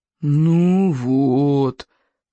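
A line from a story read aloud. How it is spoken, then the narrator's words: Groaning. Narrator (Russian): застонал Смаркала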